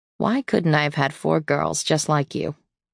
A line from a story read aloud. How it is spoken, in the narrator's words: sighed, mystified, said